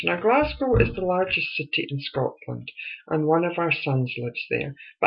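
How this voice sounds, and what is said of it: Scottish accent. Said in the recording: “You may have guessed from my accent, I'm Scottish.”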